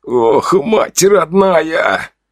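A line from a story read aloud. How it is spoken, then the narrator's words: Full strained groan. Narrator (Russian): Он застонал уже в полный, пусть и сдавленный голос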